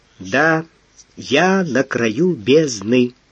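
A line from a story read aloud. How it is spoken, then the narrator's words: Muffled, convincing mutter. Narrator (Russian): глухо пробормотал Василий Александрович, и так убедительно у него это прозвучало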